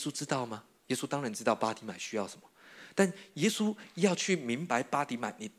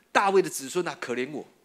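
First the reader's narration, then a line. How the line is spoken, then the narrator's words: Ever louder shouting. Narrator (Chinese): 越发大声的喊叫说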